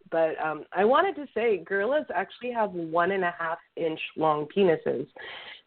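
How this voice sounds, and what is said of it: Rough, messed-up sick voice. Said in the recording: “I have bronchitis, so I'm sorry if my voice is messed up”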